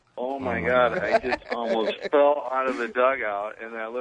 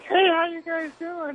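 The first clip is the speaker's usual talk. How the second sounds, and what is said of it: High-pitched imitation of another man. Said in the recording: “Will has that high voice”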